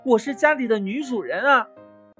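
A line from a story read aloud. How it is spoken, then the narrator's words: Angry shouting. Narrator (Chinese): 牛老妈生气地嚷道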